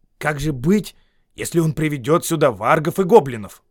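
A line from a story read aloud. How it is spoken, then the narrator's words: Exclaimed. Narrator (Russian): воскликнул он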